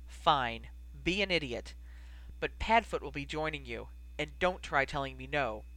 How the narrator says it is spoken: he let out something between a sigh and a growl, and said firmly

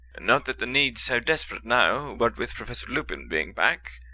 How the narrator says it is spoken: said Terry Boot

